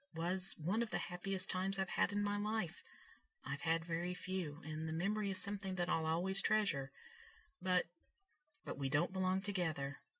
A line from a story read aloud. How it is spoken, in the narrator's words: he said softly